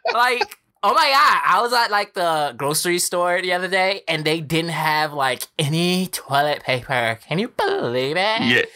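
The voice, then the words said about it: Put-on girly valley-girl style voice. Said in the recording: “you could talk normally. You ain't got to put on the girl gore voice”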